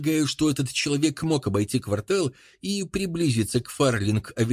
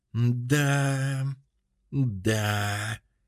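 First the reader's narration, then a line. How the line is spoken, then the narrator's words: Drawl. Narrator (Russian): протянул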